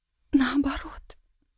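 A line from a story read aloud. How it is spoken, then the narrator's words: Whisper. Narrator (Russian): произнесла Ира шепотом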